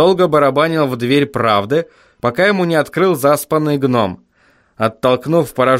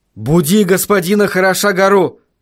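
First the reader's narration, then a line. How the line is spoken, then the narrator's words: Shout. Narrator (Russian): крикнул он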